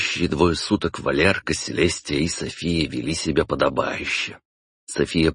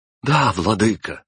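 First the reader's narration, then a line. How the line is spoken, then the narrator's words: Exclaimed in chorus. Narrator (Russian): хором воскликнули Селестия и София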